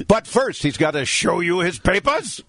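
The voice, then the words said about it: Mock German accent. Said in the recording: “Somebody who can sound like me, but with a German accent ... from the old TV show Hogan's Heroes”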